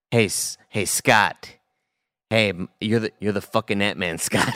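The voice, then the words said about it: Michael Douglas impression. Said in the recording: “do a Michael Douglas impression”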